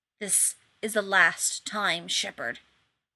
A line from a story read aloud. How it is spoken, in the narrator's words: the wraith man hissed, and he sounded more furious than even Rodney had expected